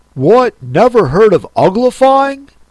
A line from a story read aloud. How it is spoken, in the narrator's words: it exclaimed